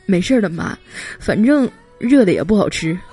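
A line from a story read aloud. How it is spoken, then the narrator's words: Choked up, tearful. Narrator (Chinese): 眼眶都红了，哽咽着说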